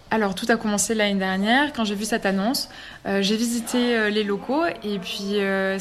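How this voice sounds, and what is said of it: Slight southern French accent. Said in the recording (French): “je pense que ça s'entend, j'ai un petit accent du sud”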